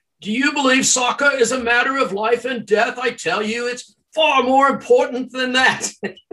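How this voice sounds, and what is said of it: Imitated British accent, not very good. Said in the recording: “I don't do a very good British accent”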